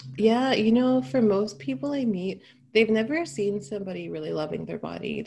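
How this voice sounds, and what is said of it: American accent. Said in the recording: “I love your accent because every time I speak to an American”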